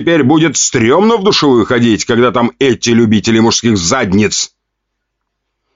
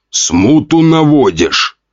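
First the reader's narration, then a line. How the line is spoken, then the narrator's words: Growled. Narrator (Russian): рыкнул он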